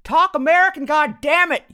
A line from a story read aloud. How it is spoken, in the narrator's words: yelled Laura's dad